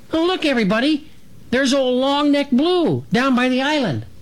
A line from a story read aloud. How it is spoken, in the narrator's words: Dragonfly cut in to exclaim